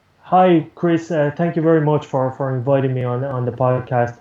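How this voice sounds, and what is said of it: Irish accent. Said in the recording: “Irish, as anybody's going to tell by the accent”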